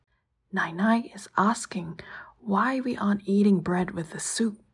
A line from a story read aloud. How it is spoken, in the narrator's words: Charlotte whispered back